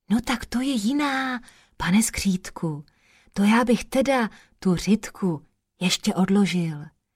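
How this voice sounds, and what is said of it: Whispering. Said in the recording (Czech): “zašeptal”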